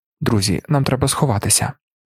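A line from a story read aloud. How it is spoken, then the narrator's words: Quiet voice. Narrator (Ukrainian): Один сказав тихим голосом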